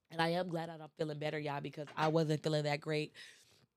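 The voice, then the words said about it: Stuffy, congested voice. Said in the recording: “these allergies ain't no joke, y'all ... I sound like a stuffed animal ... Sore throat, runny nose.”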